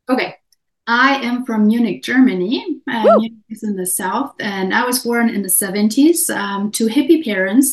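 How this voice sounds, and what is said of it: German accent. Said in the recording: “She is German. You will hear an accent.”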